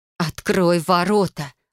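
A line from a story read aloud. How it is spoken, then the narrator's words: Growling. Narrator (Russian): вновь прорычала я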